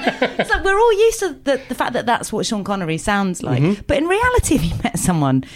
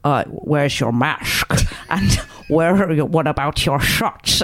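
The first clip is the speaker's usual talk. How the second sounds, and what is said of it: Imitates another person's voice. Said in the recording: “Sean Connery, who does also have a ridiculous voice ... This is the best Sean Connery impression I've ever heard.”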